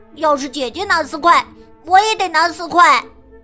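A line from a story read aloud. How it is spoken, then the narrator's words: Shouting. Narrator (Chinese): 亨利喊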